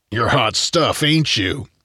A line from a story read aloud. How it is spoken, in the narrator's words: the outlaw grumbled